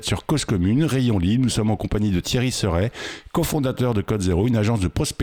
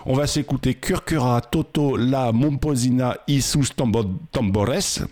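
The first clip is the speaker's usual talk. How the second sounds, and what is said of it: Attempted Spanish accent. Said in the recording (French): “J'essaye de prendre mon accent espagnol.”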